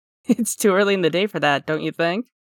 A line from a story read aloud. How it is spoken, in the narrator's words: Oka laughs